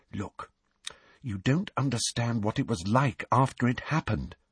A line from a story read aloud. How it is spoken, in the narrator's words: said Hermione quietly